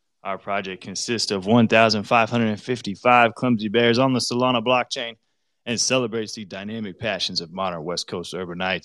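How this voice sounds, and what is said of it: Out of breath, breathless speech. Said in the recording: “I'm out of breath”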